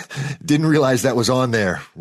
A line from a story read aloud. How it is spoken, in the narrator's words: Rory said, laughing nervously